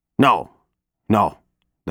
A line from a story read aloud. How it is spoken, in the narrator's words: the man says